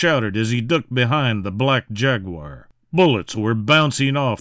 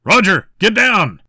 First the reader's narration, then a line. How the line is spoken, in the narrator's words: shouted the Jaguar